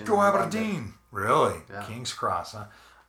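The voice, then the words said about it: Bad put-on Scottish accent. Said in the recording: “Terrible accents ... I'm just doing groundskeeper Willie.”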